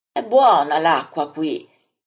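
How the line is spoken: Exclaims. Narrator (Italian): esclama Andrea

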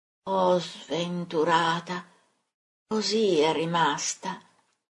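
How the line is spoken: Murmured. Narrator (Italian): Mormora

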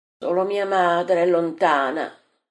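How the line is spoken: Sigh. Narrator (Italian): sospira Giacomo di Alfeo

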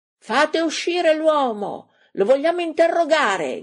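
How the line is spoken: Group shouting. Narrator (Italian): gridano i 5

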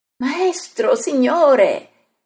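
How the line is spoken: Group exclamation. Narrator (Italian): esclamano

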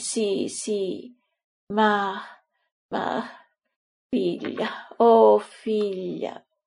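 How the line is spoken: Woman moaning. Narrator (Italian): Ella geme

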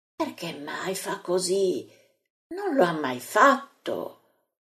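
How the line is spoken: Astonished murmuring. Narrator (Italian): Gli apostoli stupiti fra di loro mormorano

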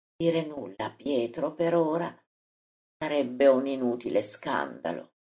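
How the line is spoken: Close whisper. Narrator (Italian): Gesù torna a sussurrargli fra i capelli

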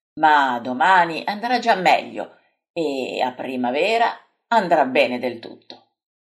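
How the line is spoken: Replying. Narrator (Italian): risponde Pietro

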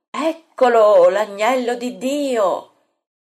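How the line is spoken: Lookout's cry. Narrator (Italian): una vedetta, arrampicata su un alto noce, getta il grido

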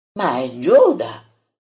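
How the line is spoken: Exclaimed. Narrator (Italian): esclama il Taddeo

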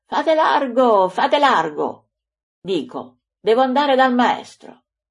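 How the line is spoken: Shouting. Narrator (Italian): Andrea, pigiato nella folla, urlando

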